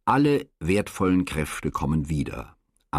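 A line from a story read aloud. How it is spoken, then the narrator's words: Sighing answer. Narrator (German): antwortete seufzend Herr Domingo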